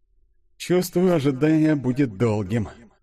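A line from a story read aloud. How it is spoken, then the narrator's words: Sighing. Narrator (Russian): вздохнул Денис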